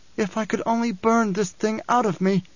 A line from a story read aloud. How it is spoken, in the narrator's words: cried